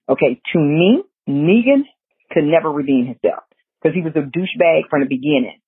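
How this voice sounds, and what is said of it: Savannah Georgia Geechee accent. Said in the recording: “This Savannah, Georgia, Geechee accent of mine is so awful.”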